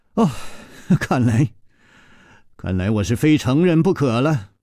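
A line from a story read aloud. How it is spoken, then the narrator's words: Sighing. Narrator (Chinese): 楚留香叹了一口气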